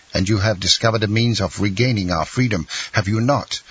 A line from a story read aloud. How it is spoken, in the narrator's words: asked Dantès eagerly